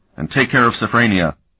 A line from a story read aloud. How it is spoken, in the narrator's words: Sparhawk said sharply